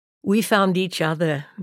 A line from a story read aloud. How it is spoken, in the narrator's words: Marilyn said